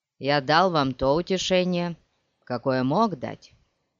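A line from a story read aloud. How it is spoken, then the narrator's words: Plain. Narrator (Russian): сказал он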